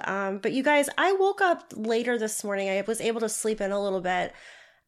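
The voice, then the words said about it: Slightly stuffy, congested voice. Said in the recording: “I sound a little stuffy. I'm getting over a cold.”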